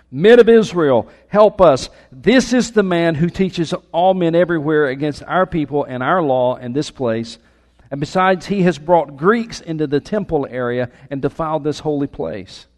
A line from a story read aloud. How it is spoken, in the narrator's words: shouting